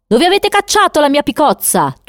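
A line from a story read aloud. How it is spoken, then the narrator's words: Thundering. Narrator (Italian): tuonava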